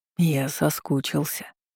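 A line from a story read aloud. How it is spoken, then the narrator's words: Growling whisper. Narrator (Russian): сообщил шепотом, больше похожим на медвежий рык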